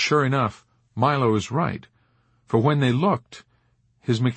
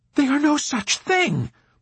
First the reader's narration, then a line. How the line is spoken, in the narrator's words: Milo retorted furiously